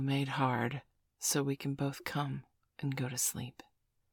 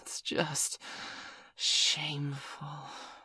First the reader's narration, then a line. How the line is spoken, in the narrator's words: Miss Angeli said, amidst a chorus of moans